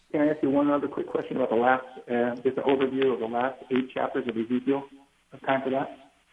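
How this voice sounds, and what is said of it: Muddled, hard-to-understand phone voice. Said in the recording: “your voice is very muddled. I got a feeling you're on a speakerphone. ... You've got a very poor cell phone. Your voice is hard to understand.”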